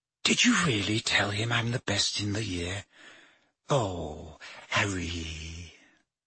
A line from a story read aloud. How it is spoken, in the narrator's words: with a radiant face and whispered